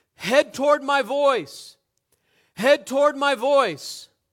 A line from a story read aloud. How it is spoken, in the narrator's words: They cried out